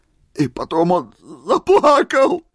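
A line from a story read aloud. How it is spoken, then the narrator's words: Sobbing exclamation. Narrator (Russian): С рыданием в голосе воскликнул Семен Устиныч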